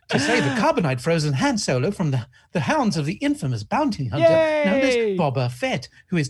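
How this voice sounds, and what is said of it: C-3PO impression. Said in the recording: “now I've turned into fucking 3PO”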